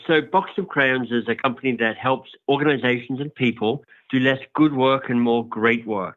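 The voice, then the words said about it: Australian accent. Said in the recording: “I'm Australian, hence my outrageously good accent.”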